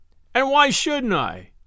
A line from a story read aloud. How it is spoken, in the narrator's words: he suddenly yelled, and his whole satanic nature reasserting itself